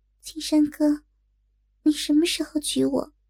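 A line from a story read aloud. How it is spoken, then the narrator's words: Soft-spoken. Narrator (Chinese): 轻声说道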